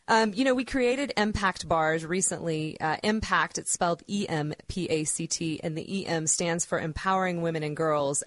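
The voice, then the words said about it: Strained, worn-out voice. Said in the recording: “apologize for my voice. I just got back from Expo West in Anaheim, and it was 3 days of talking 16 hours a day”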